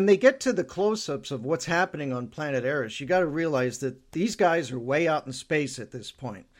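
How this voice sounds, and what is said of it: Usual voice. Nothing is said of it.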